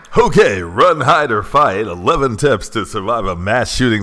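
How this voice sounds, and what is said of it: Exaggerated radio announcer voice. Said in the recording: “Is that your radio voice? ... Terrible.”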